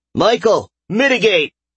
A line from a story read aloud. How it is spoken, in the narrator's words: He shouted